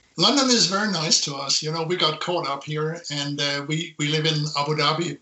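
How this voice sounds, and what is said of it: Mixed international accent. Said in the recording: “just listening to your accent, it seems to betray a number of countries that you've traveled around.”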